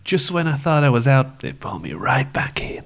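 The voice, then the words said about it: Weak put-on gangster movie accent. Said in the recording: “It wasn't a great gangster accent, to be honest.”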